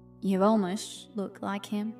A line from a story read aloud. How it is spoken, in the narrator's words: I said, very quietly